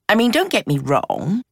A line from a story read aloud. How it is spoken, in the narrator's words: she said dryly